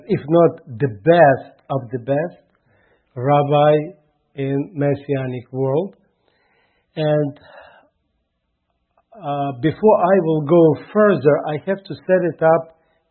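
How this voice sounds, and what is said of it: Heavy Russian accent in English. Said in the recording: “You probably have noticed my heavy accent ... I can speak, let's say, in my broken English, or I can speak in my straight Russian”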